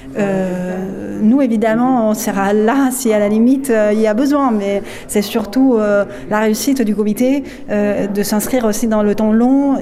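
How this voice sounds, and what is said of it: Slight foreign accent. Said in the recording (French): “son délicieux petit accent”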